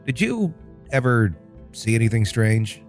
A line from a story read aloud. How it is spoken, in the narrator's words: said hesitantly